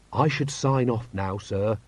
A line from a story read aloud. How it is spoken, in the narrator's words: he said gently